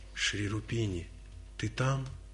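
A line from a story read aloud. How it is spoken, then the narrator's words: Quiet, gentle. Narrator (Russian): тихо, нежно, чтоб не испугать никого, произнес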